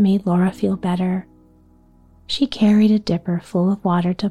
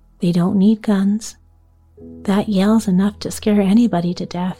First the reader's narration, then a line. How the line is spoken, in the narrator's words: said